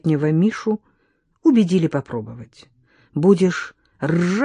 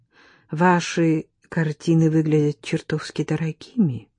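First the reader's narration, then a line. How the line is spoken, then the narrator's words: Timid woman. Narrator (Russian): робко обратилась к нему промокшая черноволосая женщина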